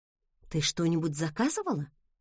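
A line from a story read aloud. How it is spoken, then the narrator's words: Quiet question. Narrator (Russian): тихо спросила я у Эмбер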